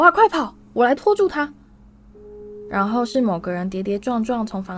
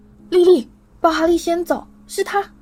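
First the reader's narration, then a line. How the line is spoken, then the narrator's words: Panicked man shouting. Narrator (Chinese): 一个在惊惶喊叫的男人嗓音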